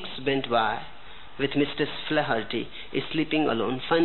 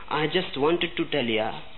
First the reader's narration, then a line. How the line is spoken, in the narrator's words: said his wife